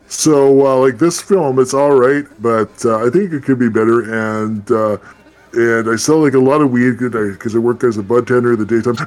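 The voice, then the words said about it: Imitates another person's voice. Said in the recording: “my batch impression ... I sound just like him, right? ... Totally. Spot on, actually.”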